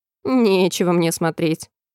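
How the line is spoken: Grumbling sheep. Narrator (Russian): пробурчала овца

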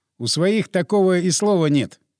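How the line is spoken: Laughing. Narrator (Russian): я засмеялся

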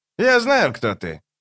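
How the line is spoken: Cheerful exclamation. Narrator (Russian): весело воскликнул коротышка

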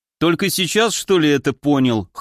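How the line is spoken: Snorting. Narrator (Russian): хмыкнул я

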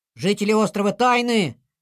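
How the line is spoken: Loud. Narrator (Russian): громко сказал Снеш

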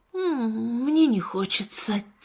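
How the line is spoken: Quiet child's voice. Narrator (Russian): тихо сказал мальчик

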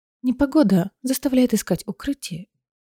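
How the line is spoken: Quiet musing aloud. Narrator (Russian): тихо сказала она, будто рассуждая вслух

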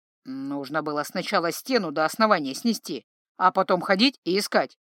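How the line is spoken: Snorted. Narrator (Russian): фыркнул Джанни

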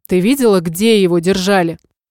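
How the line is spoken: Joyless snort. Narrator (Russian): невесело хмыкнул

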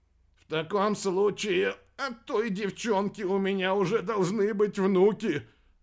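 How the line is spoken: Breathed out. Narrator (Russian): выдохнул капитан

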